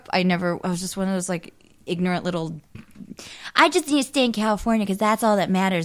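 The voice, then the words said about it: California accent. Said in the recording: “I just like your California accent.”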